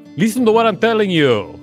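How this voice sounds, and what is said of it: Put-on Russian accent. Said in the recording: “That's a very good Russian accent.”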